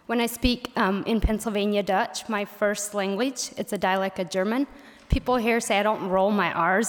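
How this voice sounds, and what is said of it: Pennsylvania Dutch accent. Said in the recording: “she gets teased a lot for having a southern Pennsylvania Dutch accent”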